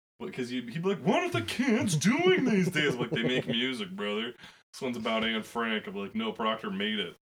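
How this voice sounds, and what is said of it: Imitates another person's voice. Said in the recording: “That's my Jerry Seinfeld... you got three solid Jerry Seinfelds”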